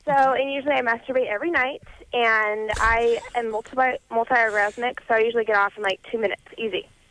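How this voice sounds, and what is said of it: Congested voice from a cold. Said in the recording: “I have a cold, as you can tell.”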